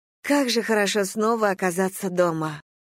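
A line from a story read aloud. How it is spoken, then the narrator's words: Sighing. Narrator (Russian): вздохнула Слойне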